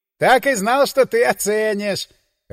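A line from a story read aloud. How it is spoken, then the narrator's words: Laughing. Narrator (Russian): рассмеялся Ханин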